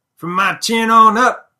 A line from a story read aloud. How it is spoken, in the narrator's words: he yells